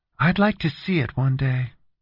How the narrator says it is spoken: Valerie said wistfully

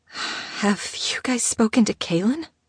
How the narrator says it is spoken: She asked, her voice trembling

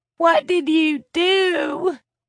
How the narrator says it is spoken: Tiffany sobbed

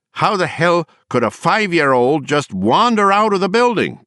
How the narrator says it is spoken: Bryant shouted

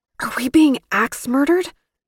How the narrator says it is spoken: his voice coming through the door

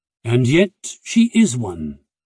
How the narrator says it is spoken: her father said firmly

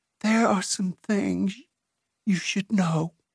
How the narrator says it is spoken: In a whisper, she said

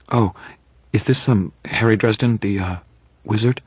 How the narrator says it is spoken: Her tone was apologetic, as though she were terribly afraid she would be insulting me

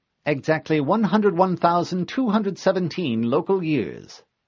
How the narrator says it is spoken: the monitor replied cheerfully

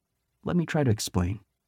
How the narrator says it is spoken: said gently

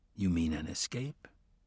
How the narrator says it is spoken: Matthew whispered

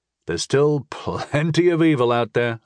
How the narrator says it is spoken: I chuckled

